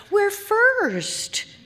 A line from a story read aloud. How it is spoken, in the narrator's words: exclaim